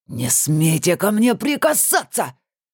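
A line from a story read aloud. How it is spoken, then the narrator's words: Hissed by sorcerer. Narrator (Russian): зашипел колдун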